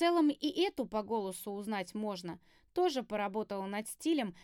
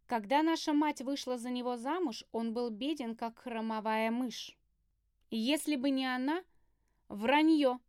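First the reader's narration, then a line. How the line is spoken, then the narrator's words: Dry reply. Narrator (Russian): Сухо ответила я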